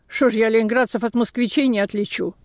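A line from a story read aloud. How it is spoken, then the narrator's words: Offended. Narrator (Russian): хозяйка сказала обиженно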